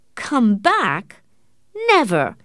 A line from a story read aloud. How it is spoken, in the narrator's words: Morris said angrily